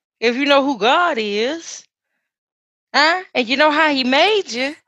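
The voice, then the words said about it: Preacher voice. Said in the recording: “my preacher voice”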